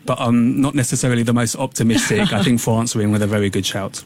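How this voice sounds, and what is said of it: English accent. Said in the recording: “You may tell from my accent, I will 100% be cheering for England”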